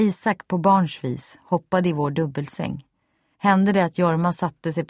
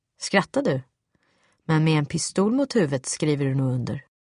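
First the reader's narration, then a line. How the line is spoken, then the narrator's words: Cold. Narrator (Swedish): kunde han helt kallt säga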